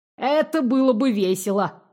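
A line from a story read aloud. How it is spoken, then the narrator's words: Snort. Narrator (Russian): хмыкнул Сумрак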